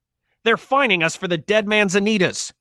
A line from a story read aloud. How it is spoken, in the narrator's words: he shouted